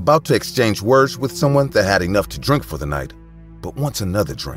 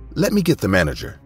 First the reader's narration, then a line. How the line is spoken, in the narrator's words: I was only new there, and I didn't know, so I quickly said